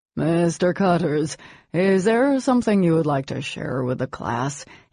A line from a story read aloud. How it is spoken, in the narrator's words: he asked in a tired, bored voice